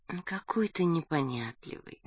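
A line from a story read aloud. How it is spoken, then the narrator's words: Tender. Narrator (Russian): нежно сказала Галя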